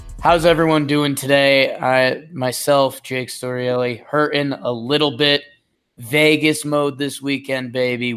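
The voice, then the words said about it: Slightly hoarse voice. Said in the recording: “If my voice sounds a little hoarse”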